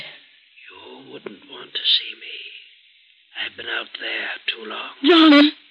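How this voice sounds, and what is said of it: Whispering voice. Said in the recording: “Why are you whispering?”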